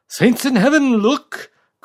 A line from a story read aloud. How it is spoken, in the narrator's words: cried O'Reilly, horrified